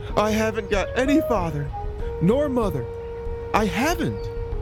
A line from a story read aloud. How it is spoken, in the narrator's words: Manabozho started off again with his doleful hubbub, but succeeded in jerking out between his big sobs